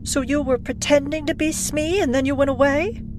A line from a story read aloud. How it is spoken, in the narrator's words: She laughed, bewildered